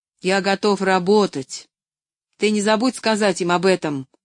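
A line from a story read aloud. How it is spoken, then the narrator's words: Stern instruction. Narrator (Russian): строго напутствовал он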